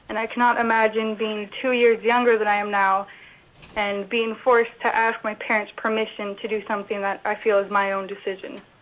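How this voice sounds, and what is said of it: Emotional, strained voice. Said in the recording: “I'm getting emotional.”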